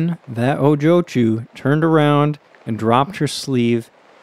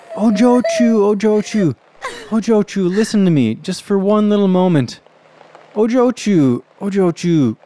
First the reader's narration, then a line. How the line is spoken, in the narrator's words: He ... pleaded